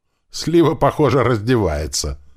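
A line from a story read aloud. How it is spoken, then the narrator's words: Cheerful. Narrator (Russian): весело сказал Рыжий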